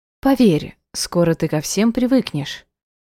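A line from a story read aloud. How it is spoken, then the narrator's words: Gentle. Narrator (Russian): ласково произнесла Мария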